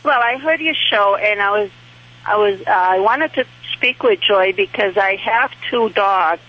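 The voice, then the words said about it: New Hampshire accent. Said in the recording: “You have that New Hampshire accent. ... I do.”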